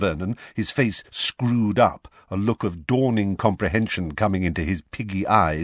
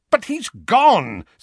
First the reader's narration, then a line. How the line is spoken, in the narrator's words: said Uncle Vernon, impatiently